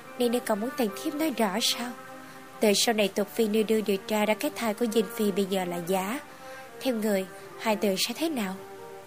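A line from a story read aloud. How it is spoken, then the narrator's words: Smiling. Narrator (Vietnamese): Nàng ta mỉm cười nói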